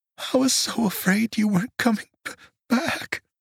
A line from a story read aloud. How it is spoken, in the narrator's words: she sobbed